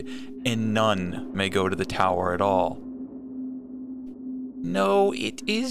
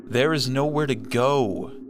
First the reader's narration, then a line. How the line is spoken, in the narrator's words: Thaddeus cried